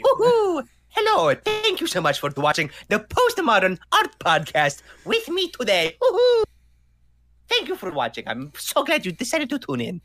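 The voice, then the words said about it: Mario character voice impression. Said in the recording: “did you master Mario? ... Should we do a little Mario voice demo right now?”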